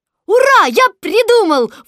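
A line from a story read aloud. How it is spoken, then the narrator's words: Sudden shout. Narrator (Russian): вдруг закричал Кристофер Робин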